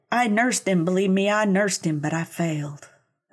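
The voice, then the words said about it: Put-on Southern US accent. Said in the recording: “I'm loving the accent. ... She's a sweet southern lady.”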